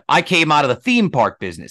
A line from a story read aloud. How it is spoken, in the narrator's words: he said